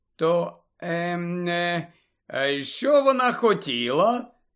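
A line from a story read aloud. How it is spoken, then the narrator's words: Feigned indifference. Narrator (Ukrainian): запитав Рон удавано байдужим голосом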